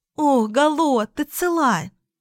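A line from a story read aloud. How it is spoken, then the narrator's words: Exclaiming. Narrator (Russian): воскликнула Луна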